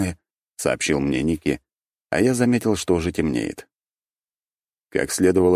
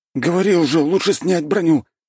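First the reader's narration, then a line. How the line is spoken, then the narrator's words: Nearly shouted. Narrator (Russian): едва не выкрикнул Ники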